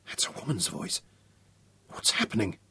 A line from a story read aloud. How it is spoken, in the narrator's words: Ryan breathed